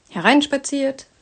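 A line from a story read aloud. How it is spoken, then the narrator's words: Cheerful call. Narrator (German): rief sie vergnügt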